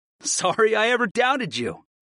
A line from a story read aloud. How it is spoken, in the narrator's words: I laughed